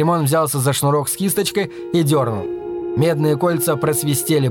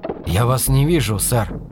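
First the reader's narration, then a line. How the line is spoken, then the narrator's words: Whispered. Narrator (Russian): прошептал он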